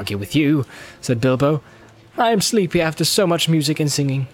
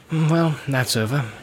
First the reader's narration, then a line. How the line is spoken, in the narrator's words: he said in a low voice